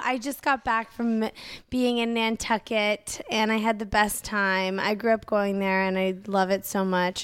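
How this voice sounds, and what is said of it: Husky, partly lost voice. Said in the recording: “my voice is a little gone. I'm sorry if I sound a little husky”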